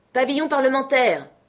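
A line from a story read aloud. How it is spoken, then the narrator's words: Shouted. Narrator (French): cria Silver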